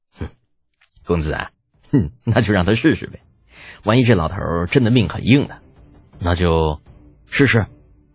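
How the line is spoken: Half-smiling, wry. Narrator (Chinese): 身边护卫头子似笑非笑道

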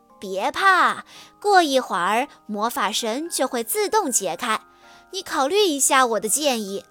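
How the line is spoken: Cheerful grinning. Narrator (Chinese): 他笑嘻嘻地说

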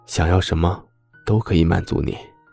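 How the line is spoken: Husky. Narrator (Chinese): 周伯言 沙哑道

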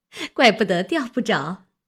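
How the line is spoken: Laughing. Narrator (Chinese): 李文笑道

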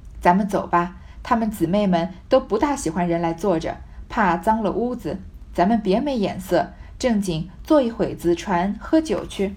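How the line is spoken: Laughing. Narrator (Chinese): 贾母向薛姨妈笑道

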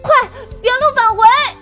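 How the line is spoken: Urgent repeated shouting. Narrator (Chinese): 小表哥连声大喊

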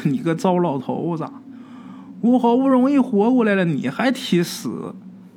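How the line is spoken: Laughing. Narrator (Chinese): 这郭奶奶就笑，就说

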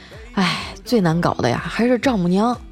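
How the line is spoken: Sighing. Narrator (Chinese): 调调叹了口气说

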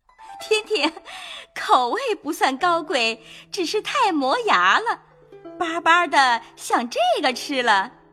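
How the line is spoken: Laughing. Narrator (Chinese): 凤姐笑道

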